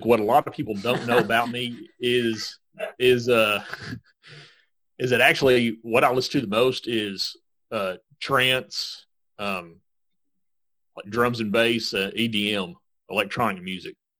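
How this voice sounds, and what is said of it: Country-sounding American accent. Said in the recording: “it's pretty obvious by my accent that I probably listen to country music”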